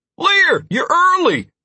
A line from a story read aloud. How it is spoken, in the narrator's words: Constantine shouted back